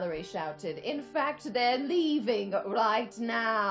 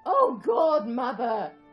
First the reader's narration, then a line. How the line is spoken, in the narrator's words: Archer groaned